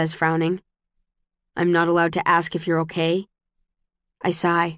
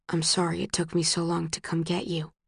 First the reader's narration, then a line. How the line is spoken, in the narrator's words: he whispers into my hair